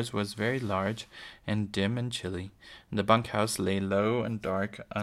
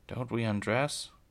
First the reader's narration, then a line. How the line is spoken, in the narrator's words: Laura mumbled sleepily